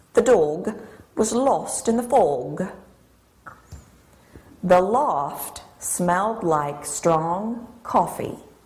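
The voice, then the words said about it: Imperfect put-on English accent. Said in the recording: “that English accent was amazing. I mean, perfect, right? Wrong. ... It wasn't perfect. I mean, she gets some things right, but it's certainly not perfect”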